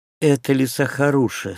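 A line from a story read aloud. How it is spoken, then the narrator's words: Sighing princess. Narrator (Russian): сказала принцесса, тяжело вздохнув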